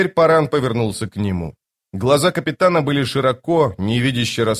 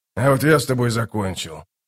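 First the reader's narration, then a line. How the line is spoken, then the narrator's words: Calm. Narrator (Russian): спокойно ответил малозанец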